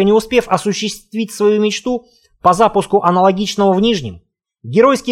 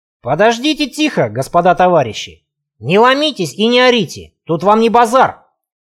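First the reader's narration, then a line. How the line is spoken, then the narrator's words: Stern bark, stout woman. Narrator (Russian): строго рявкнула владелица ларька, плотное бабище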